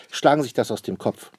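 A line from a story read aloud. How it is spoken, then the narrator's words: Plain. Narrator (German): sagt Papa Wapper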